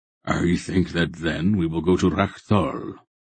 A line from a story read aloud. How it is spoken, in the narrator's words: Belgarath replied rather grimly